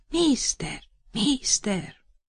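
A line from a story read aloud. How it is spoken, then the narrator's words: Whisper, bad accent. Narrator (Russian): шептали в ухо с дурным акцентом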